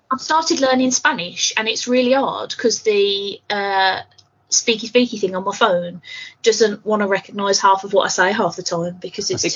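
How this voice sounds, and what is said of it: Brummie accent. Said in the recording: “Brummie accent”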